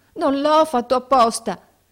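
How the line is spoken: Shouting. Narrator (Italian): gridando

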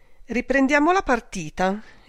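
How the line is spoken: Sarcastic exclamation. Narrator (Italian): esclamò con sarcasmo Marga Merani

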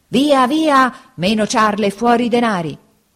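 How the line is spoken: Two men shouting threateningly. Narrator (Italian): gridavano minacciosamente i due briganti

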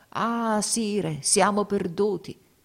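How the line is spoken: Anguished exclamation. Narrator (Italian): battendosi il volto, esclamò

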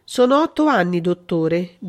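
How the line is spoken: Almost moved voice. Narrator (Italian): disse con voce quasi commossa

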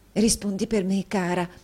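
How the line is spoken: Friend whispering. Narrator (Italian): bisbigliò l'amica

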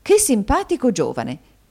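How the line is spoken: Exclaiming. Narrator (Italian): esclamò la signora Kenwigs

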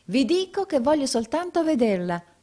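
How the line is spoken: Exclaimed. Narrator (Italian): esclamò il cliente

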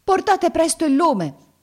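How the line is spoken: Servant shouting. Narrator (Italian): gridò la sua serva

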